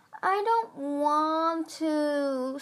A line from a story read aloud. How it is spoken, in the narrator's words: Squid whined